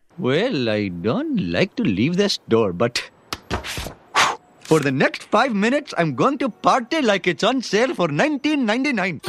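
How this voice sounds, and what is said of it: Apu's exaggerated Indian accent. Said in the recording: “the character of Apu from The Simpsons ... Apu's Indian accent ... I'm going to go with 1. Because I haven't actually ever met anyone in India that sounds like that.”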